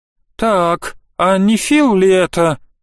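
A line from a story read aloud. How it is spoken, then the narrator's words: Amazed drawl. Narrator (Russian): изумленно протянул Янис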